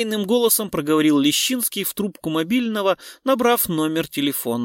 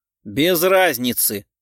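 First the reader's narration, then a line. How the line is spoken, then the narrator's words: Snort. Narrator (Russian): хмыкнул Семен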